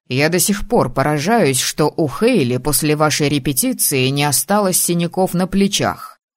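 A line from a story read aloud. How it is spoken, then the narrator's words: Plain. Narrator (Russian): сказал он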